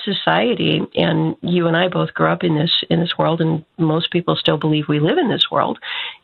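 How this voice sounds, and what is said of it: Husky voice from a cold. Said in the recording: “my voice sounds a little husky, it's because I am recovering from a very bad cold”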